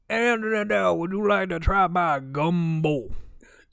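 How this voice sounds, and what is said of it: Put-on Cajun accent. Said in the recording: “accent humor ... Cajun accented”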